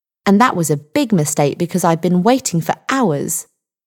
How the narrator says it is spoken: Linda said angrily

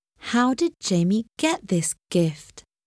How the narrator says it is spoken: Finally, she asked slowly

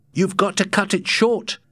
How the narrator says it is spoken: cried Matt

